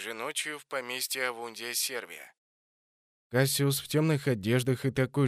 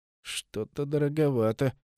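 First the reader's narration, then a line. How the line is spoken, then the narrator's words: Said through teeth. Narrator (Russian): процедил Амунди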